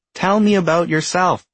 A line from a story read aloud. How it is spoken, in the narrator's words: excitedly